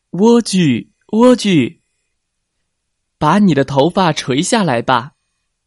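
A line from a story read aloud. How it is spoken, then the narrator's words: Calling, imitating a witch. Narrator (Chinese): 王子学着女巫的样子在塔下喊道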